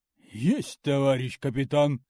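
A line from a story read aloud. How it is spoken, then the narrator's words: Security guard barking. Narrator (Russian): гаркнул чоповец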